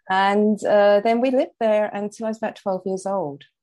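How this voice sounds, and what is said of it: London English accent. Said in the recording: “I started out life, as you may have gathered, in London, and from the accent as well.”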